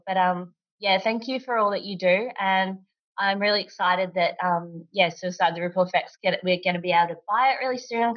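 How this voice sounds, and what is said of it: Strained, fading voice. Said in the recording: “I'm struggling with losing my voice at the moment, trying to talk.”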